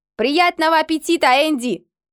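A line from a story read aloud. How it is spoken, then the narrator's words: Shouted with a grin. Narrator (Russian): прокричал он, все еще ухмыляясь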